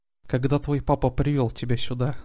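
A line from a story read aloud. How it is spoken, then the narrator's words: Speaking after laughing. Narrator (Russian): заговорил он, отсмеявшись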